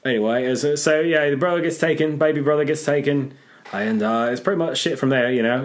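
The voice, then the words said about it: Put-on British-style accent. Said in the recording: “it's just hard to do accents because we're bad at them... You're very good at them... Mine's a bit different. There's several accents over there”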